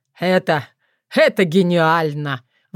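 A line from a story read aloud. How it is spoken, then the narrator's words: Just after laughing. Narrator (Russian): выговорил Филипп, отсмеявшись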